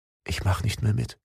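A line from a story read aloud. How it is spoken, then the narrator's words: Quiet, cold. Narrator (German): hauchte einen warmen Nebel gegen seinen entblößten, frierenden Finger und sagte leise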